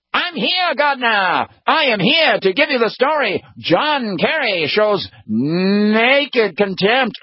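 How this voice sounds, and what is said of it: 1930s-40s newsreel announcer voice. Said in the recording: “I try to do a really good impression of him. But here he is, newsreel footage guy coming in from the 1930s and 40s.”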